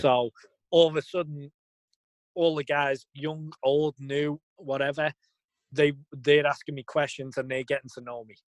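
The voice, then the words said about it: Liverpool accent. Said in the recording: “the accent brings that, starts conversation... Accent start is an icebreaker... what it's like in Liverpool”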